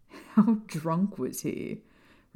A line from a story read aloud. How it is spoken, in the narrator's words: Remus asked James, with a laugh